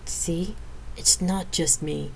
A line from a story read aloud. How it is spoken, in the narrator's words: I muttered to Lydia